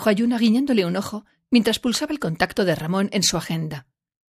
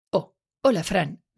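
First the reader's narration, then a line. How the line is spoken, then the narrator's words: Plain. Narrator (Spanish): respondió ella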